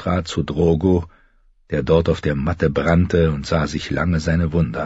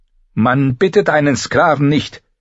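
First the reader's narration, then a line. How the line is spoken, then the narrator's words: Sharp retort. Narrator (German): gab Miri scharf zurück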